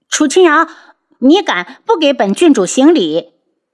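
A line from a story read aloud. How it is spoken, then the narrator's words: Angry. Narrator (Chinese): 见楚清瑶淡然地站着，一点反应也没有，不由发怒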